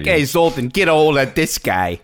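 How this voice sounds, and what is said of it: Put-on New York accent. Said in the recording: “Why does he got to have a New York accent?”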